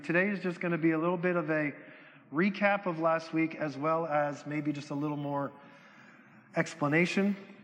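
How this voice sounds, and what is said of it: Strained, struggling voice. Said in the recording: “My voice is struggling today”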